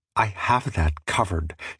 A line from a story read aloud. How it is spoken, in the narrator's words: she whispered